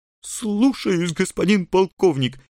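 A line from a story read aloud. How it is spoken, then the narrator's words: Barely breathed. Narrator (Russian): едва выдохнул он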